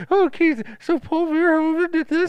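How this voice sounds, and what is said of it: Imitates another person's voice. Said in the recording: “I'm doing your voice. I'm doing your voice.”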